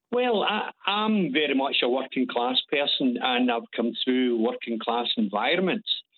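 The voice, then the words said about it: Glaswegian Scottish accent. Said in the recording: “your accent ... I'm a Glaswegian”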